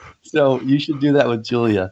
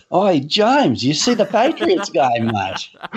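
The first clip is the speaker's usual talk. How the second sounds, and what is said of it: Put-on Australian accent. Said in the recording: “Australian, and he has a very subtle accent ... Very subtle ... Yours is so good”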